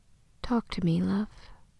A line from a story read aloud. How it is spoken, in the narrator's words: Janna brushes his ear with her mouth and whispers